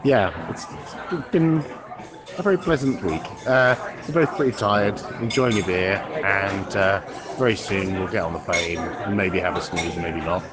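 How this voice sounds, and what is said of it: Noticeable foreign accent. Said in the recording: “where nobody will comment on my accent. Unlike here, where every single person comments on my accent”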